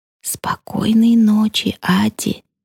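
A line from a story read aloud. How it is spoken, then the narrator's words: Quiet. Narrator (Russian): тихо говорю я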